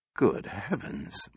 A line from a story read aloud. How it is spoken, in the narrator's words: muttered Bogart